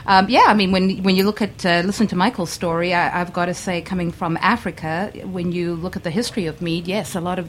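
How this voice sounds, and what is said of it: South African accent. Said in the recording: “South Africa still has this, like, first of all, you have a great accent ... I haven't lost my accent yet”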